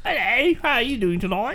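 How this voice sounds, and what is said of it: Put-on British accent, parrot-like. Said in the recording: “My British accent is... You sound like a parrot.”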